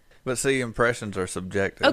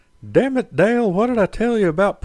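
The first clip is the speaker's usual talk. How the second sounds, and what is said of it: Cartoon character voice impression. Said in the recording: “He can do the best Hank Hill impression ... I think you do a great Hank Hill”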